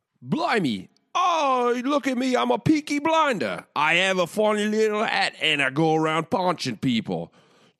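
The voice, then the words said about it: Put-on Cockney accent. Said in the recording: “do this Hams ad in a Cockney accent ... I don't know if that was right at all.”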